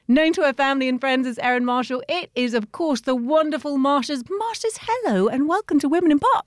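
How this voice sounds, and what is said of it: Soothing regional accent. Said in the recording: “I could listen to your accent all day... So soothing.”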